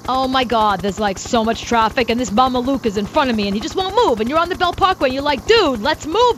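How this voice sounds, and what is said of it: Put-on Brooklyn accent. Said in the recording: “you had to do their accent ... say hello in the accent your mom has ... my mom, who's from Brooklyn”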